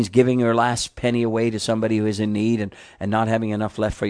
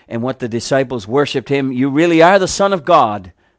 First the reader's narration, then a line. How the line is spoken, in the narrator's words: they exclaimed